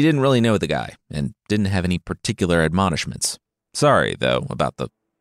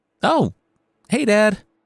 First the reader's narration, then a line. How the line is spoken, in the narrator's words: Maruf called out